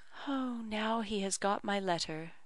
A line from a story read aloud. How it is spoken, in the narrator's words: said she softly